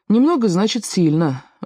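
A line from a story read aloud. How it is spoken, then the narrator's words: Sighing. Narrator (Russian): вздохнул Паки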